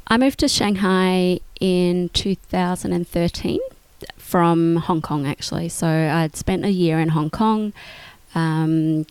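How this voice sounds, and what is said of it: Australian accent. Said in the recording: “You you are obviously by your accent Australian.”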